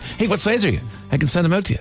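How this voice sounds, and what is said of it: Graham McDowell impression. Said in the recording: “My amazing Graham McDowell impersonation.”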